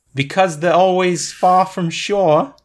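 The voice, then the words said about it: Put-on Australian accent. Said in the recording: “That would probably be funnier with a British accent ... That is Australian, but it does work.”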